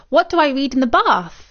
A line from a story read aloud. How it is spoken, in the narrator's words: exclaimed Milo